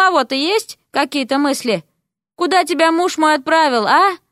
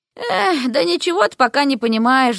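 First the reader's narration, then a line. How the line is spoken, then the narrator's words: Sigh. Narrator (Russian): вздохнула ведьма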